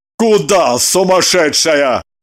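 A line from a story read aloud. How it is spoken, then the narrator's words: Driver barking angrily. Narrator (Russian): Рявкнул водитель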